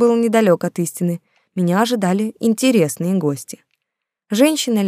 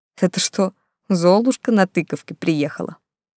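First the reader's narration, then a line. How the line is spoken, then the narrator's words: Mocking question with snort. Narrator (Russian): хмыкнув, Антон насмешливо поинтересовался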